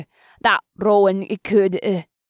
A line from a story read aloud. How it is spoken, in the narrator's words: Girin stammered